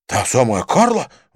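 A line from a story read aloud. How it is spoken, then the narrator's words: Exclaiming. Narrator (Russian): воскликнул Винсент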